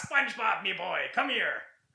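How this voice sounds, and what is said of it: Cartoon character impression, Mr. Krabs. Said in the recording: “do an impression that's going to suck ass ... Mr. Krabs”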